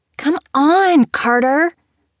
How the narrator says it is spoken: The other girls whined at her

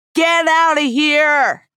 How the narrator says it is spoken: I screamed

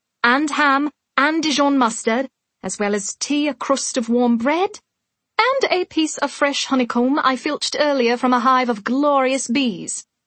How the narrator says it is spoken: Pippa said triumphantly

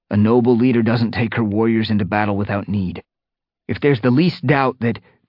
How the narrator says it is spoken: Fireheart mewed urgently

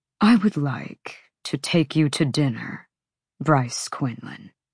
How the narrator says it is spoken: But Micah purred

